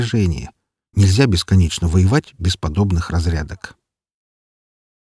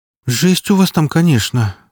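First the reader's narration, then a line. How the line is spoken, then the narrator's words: Sighing. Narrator (Russian): вздохнула Вика, посмотревшая пару видео с живым городом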